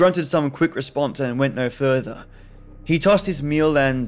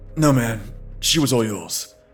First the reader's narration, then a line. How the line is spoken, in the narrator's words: grunted